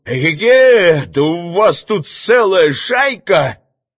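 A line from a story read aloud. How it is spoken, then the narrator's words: Thin, high shout. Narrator (Russian): крикнул тонко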